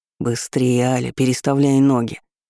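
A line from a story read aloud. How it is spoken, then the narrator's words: Growling. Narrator (Russian): рычал он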